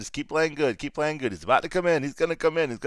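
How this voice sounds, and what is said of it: Imitates another person's voice. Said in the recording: “That was my smart impersonation”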